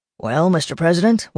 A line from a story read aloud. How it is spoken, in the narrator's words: Walter said dryly